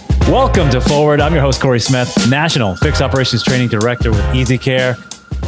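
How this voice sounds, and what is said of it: Polished radio announcer voice. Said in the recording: “your amazing radio voice ... it's so that incredible ... not being able to match that voice”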